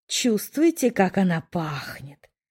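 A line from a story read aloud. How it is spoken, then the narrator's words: Almost pleased purring. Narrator (Russian): почти довольно мурлыкал Тарис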